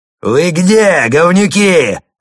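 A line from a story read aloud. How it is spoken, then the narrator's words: Yelling. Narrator (Russian): заорал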